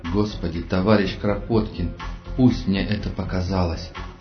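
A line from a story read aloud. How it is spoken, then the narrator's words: Muttered to himself. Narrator (Russian): пробормотал про себя Толя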